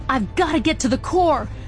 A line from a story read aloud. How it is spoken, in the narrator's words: Jinx yelled across the room